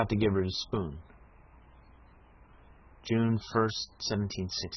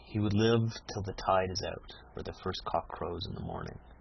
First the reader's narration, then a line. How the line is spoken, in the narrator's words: said Katie solemnly